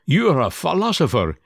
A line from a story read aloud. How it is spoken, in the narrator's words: he cried